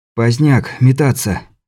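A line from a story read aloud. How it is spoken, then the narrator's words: Sudden hoarse exhale. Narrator (Russian): вдруг хрипло выдохнул Каспер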